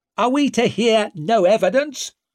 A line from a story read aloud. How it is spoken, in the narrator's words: called out Huygen